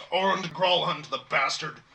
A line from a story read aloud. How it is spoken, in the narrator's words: he kind of growls